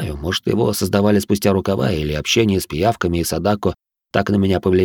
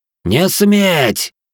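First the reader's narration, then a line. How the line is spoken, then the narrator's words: Emotional roar. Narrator (Russian): взревел жнец, впервые проявив эмоции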